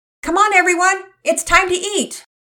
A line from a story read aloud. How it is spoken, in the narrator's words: Mama Peters yelled from downstairs